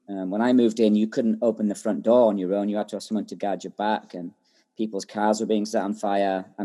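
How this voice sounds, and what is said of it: English accent. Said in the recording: “you are clearly from England. I can tell by your accent. ... There's nothing English about me apart”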